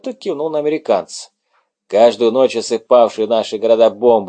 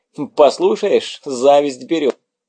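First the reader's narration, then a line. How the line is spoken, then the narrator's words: Laughing. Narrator (Russian): засмеялся Жак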